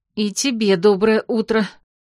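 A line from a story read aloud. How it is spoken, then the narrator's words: Gloomy hateful mutter. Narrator (Russian): мрачно пробормотала я с ненавистью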